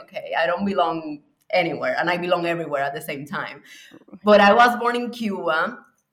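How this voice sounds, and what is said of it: Puerto Rican accent. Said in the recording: “my accent is Puerto Rican, if you notice ... your accent is Puerto Rican”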